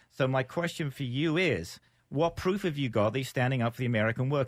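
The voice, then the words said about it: Non-American accent. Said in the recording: “I'm an American with a funny accent”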